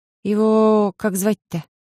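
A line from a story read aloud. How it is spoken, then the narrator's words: Slightly trembling, wary mumble. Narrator (Russian): Слегка подрагивающим голосом пробормотала я, опасливо косясь на животное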